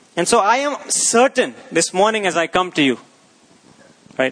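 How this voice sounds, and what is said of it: Raised, loud voice, not shouting. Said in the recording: “I'm not shouting at you, even though I raise my voice.”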